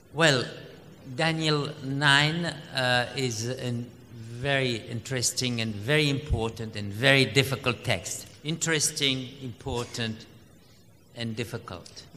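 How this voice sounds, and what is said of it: French accent in English. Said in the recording (Spanish): “my French accent”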